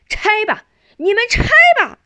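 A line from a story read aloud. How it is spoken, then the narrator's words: Crowd shouting together. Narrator (Chinese): 钱乡老、李乡老等一大群人……大家一起呐喊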